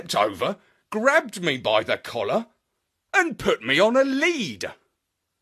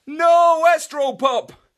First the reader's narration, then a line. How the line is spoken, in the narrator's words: shouted Marlow